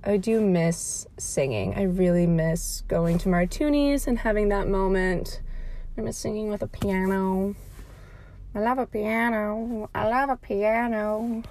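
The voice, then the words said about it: Out of breath, breathy speech. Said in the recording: “I'm a little out of breath because I, like, walked very quickly to the car”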